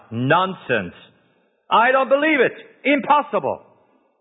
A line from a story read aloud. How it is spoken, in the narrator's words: Thomas cried out